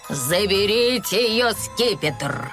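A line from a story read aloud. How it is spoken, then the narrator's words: Growling leader. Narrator (Russian): прорычал желтый главарь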